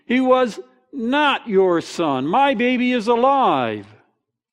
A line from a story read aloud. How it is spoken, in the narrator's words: woman shouted